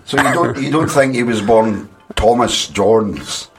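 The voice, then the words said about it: Witch voice. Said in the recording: “That was my witch accent.”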